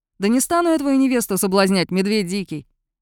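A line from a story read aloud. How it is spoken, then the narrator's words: Cheerful snort. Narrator (Russian): Кайлин весело фыркнул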